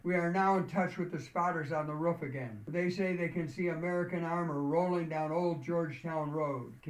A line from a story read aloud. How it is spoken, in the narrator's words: One of the radio techs called out